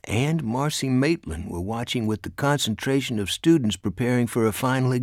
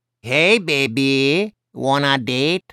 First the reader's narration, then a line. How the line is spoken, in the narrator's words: in a Mexican accent that made him sound like Speedy Gonzalez